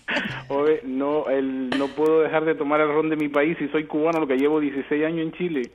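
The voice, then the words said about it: Chilean Spanish accent. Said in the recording (Spanish): “Y tiene el acento... Tiene el acento chileno.”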